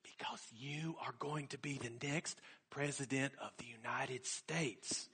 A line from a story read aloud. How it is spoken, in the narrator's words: She smiled conspiratorially and whispered